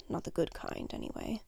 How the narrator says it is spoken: he mutters, just a little too revealing, and it's quiet, but heard anyway in the silent room

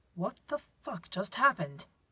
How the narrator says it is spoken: John exclaims

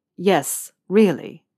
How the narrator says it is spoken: Malfoy said firmly

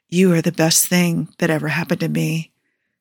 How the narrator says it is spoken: he said softly

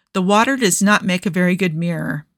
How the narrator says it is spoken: sighed

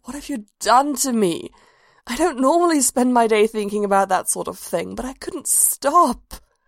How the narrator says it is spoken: groaned

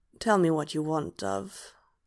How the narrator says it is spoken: Hob murmurs

